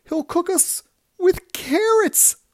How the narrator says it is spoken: cried the third

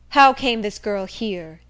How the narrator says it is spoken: he exclaimed

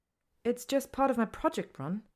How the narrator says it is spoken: she says hastily

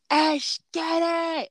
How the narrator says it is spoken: I'm just yelling out

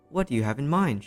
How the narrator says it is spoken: she said

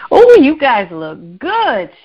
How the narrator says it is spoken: exclaimed

